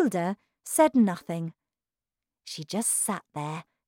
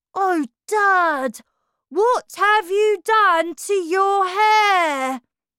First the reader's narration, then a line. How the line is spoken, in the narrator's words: the son shouted